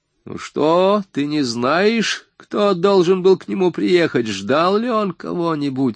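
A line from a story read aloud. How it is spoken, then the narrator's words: Sharp, birdlike questioning. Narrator (Russian): спрашивала резким птичьим голосом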